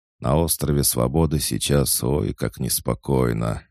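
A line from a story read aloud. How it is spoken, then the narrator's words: Sigh. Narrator (Russian): вздохнул он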